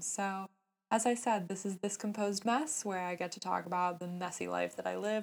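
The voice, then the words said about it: Strained voice cutting in and out. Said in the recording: “my voice is a little different ... it has been going in and out ... things might be sounding a little different”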